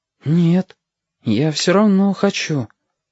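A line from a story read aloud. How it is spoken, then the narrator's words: Uncertain reply. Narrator (Russian): неуверенно отозвался Стасик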